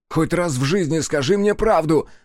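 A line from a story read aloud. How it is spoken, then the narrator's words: Loud roar. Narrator (Russian): взревел Фиро, не беспокоясь о том, что его могут услышать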